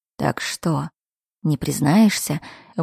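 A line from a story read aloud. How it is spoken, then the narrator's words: Whisper against the lips. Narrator (Russian): вновь шепнул Эйджел, но уже прямо в губы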